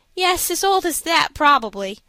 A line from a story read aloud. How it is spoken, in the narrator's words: said Fosdick, laughing